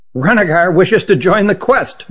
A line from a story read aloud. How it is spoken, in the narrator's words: blurted Hutt